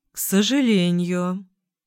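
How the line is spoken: Disappointed drawl. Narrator (Russian): протянул он разочарованно

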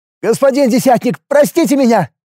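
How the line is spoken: Shouted. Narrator (Russian): выкрикнул я

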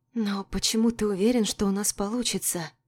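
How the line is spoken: Whisper. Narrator (Russian): Прошептала я

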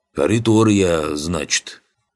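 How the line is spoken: Deep bass voice. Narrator (Russian): Тот пробасил

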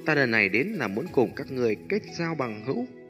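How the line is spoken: Faint cold smile. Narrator (Vietnamese): Cố Hằng cười nhạt nói

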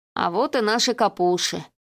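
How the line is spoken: Sleepy. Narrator (Russian): сонно потер глаза Гоша

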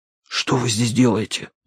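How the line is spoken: Whisper. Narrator (Russian): прошептал я

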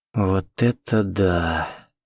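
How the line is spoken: Breathless exhale. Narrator (Russian): выдохнула девушка

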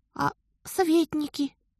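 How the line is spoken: Timid old man. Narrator (Russian): робко подал голос старик

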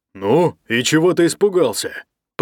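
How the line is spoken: Grumbling. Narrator (Russian): проворчал Ник

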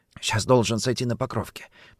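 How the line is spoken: Whisper. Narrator (Russian): прошептал Орлов

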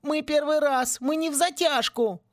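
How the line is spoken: Whining. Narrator (Russian): заскулил Винки

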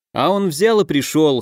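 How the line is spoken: Smirking. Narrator (Russian): хмыкнул Макс

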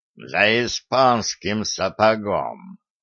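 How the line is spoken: Executioner's hiss. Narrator (Russian): прошипел палач

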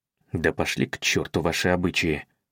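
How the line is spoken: Mutter in English. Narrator (Russian): пробормотал он по-английски

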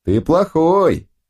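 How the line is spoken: Group shouting. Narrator (Russian): кричали

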